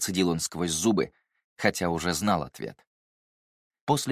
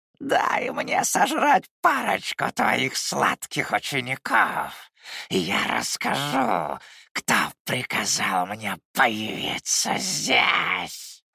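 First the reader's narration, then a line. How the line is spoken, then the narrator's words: Creaky, mad grin. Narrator (Russian): Проскрипела она, натягивая на лицо безумную улыбку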